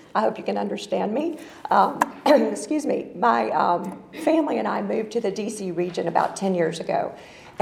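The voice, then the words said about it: Southern US accent. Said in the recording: “which explains the Southern accent.”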